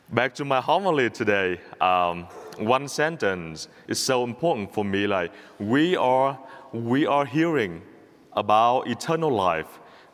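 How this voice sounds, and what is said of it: English with a non-native accent. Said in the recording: “you had to listen the gospel with my accent ... with my homily, with my accent as well”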